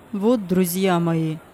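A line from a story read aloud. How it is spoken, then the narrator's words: Plain. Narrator (Russian): сказал директор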